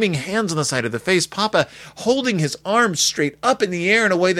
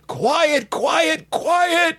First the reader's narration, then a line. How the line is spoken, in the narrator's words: yell together